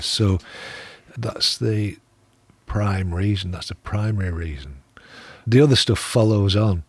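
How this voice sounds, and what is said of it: Slightly softened Lancashire accent. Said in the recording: “my accent might have been rounded a bit, but I'm still uh, from Lancashire”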